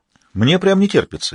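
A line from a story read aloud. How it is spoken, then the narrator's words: Cheerful. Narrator (Russian): весело сообщил им Фрэнсис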